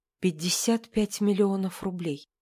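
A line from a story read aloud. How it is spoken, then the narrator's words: Whisper. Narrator (Russian): прошептала она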